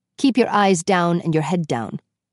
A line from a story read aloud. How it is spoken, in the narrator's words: he said coldly